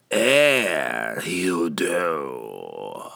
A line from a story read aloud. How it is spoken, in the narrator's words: the creature croaked